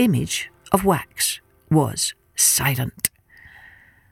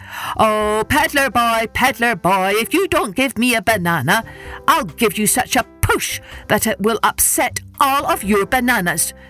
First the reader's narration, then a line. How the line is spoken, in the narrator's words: Then the monkey called out in his loudest voice